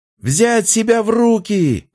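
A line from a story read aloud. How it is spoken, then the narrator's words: Yelling. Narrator (Russian): орал Фомин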